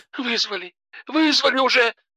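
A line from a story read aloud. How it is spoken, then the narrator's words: Sobbing into phone. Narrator (Russian): рыдала Алена в трубку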